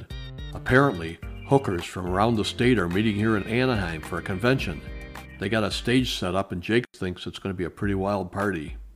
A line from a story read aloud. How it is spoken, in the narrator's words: He lowered his voice and leaned towards me and said